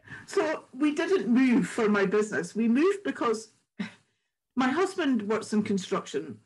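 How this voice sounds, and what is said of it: Scottish accent. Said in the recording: “I know you're Scottish anyway, from your beautiful accent”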